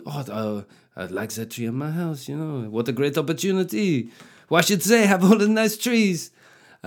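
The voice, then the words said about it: Weak put-on French accent. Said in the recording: “This is the first time I've tried the French accent. It's not really going very well.”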